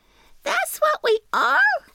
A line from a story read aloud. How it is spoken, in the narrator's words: cried the little trees